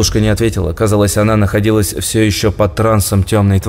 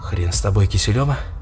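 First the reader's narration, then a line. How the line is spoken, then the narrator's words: Displeased hiss, young man. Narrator (Russian): Недовольно прошипел парень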